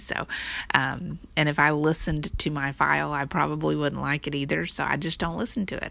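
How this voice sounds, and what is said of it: Texan twang accent. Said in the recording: “I'm Texan and I have a twang to me”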